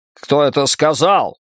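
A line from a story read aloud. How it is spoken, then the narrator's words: Shouting. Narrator (Russian): крикнул Фриц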